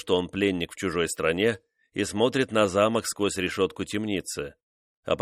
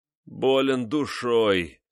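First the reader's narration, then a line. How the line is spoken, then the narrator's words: Moaning. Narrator (Russian): простонал Декатина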